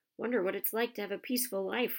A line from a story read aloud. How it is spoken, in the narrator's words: Ron sighed, as evening after evening they struggled through all the extra homework they were getting